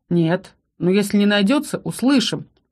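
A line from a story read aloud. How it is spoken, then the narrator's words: Knowing snort. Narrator (Russian): хмыкнул Ролл, который явно понял, о ком или о чем речь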